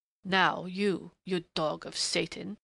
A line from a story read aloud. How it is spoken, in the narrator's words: he snarled in a sudden snapping of restraint